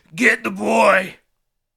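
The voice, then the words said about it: Very raspy voice. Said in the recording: “in a very raspy voice.”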